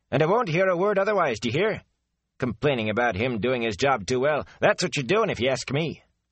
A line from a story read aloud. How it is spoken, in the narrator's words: the cook was saying sharply